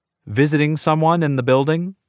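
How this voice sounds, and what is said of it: Dubious, lilting questioning tone. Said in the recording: “My voice has a dubious lilt.”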